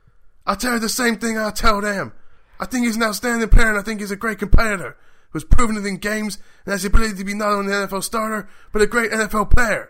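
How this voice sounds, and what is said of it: Shouted impression of another person's voice. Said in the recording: “Please do the voice. ... Don't you just shout everything? ... Yep, just do that. ... It's like he's in the room.”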